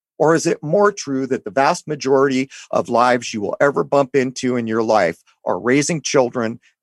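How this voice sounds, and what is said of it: Hoarse, failing voice. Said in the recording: “I'm kind of losing my voice”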